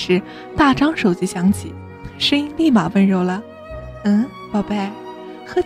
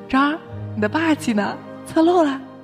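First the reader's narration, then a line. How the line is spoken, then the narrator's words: Laughing breathlessly. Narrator (Chinese): 满哥笑岔气儿了，说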